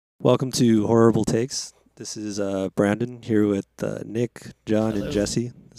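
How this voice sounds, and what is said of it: Put-on radio announcer voice. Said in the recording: “Are you changing your voice a little?... Yeah, this is my radio voice.”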